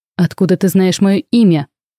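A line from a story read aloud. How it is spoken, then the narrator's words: Growled. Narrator (Russian): прорычал на него Шатен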